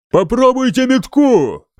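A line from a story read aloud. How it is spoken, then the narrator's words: Roar. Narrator (Russian): взревел он датчанам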